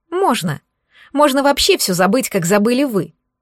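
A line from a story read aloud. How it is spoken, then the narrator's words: Snapping retort. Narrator (Russian): огрызнулась Ольга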